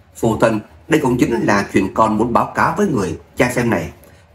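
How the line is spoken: Smiling. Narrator (Vietnamese): mỉm cười

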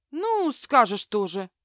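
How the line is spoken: Snort. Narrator (Russian): фыркнула Аврора

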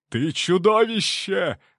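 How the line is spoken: Shout. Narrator (Russian): выкрикнул он

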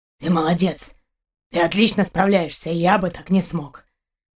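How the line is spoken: Hoarse chuckle. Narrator (Russian): Каранец хрипло хохотнул

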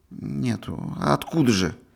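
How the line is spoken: Guilty, hopeless, barely audible. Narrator (Russian): Он вспыхнул весь до корней волос и виноватым, безнадежным, едва слышным голосом ответил

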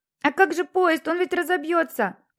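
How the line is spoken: Boy yelling. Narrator (Russian): орал мальчик

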